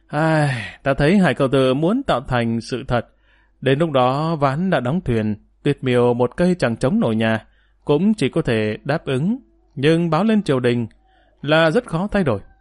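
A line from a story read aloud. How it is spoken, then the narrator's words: Sighing. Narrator (Vietnamese): Thành Khởi Vận thở dài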